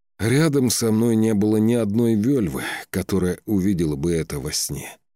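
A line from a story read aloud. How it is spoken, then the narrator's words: Sighing. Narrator (Russian): вздохнул Скаль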